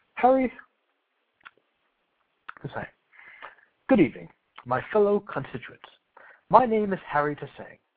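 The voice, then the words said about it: Poor put-on accent. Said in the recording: “Not, that's not a good accent.”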